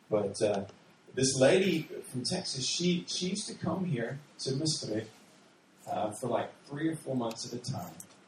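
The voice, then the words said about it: Deep Texas drawl. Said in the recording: “I'm originally from Texas. If you hear a deep drawl or accent, you know that.”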